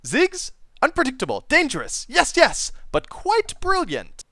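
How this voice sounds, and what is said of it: Poor attempt at character accent. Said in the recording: “my horrible attempt to do a Heimerdinger accent”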